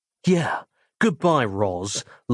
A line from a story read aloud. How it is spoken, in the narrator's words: laughed Nick inwardly